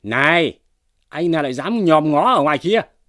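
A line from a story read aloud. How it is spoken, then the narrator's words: Sharp shouted question. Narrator (Vietnamese): quát hỏi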